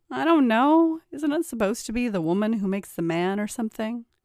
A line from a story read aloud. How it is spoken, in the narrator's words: His bride laughed